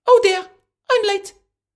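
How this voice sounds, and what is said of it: Funny character voice of rabbit. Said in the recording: “funny voice”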